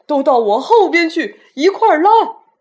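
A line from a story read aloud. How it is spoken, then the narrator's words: Old grasshopper roaring. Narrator (Chinese): 绿色老蚱蜢吼叫着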